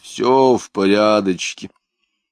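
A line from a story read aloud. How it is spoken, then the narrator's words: Cheerful booming bass masking sadness. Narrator (Russian): когда ему бывало грустно или не по себе, он сказал веселым, гудящим басом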